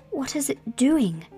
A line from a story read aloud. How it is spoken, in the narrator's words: cried Colin